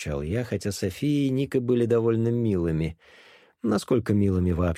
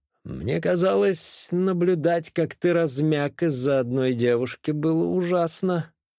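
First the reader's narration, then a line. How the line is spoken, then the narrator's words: Drawling. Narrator (Russian): Протянул я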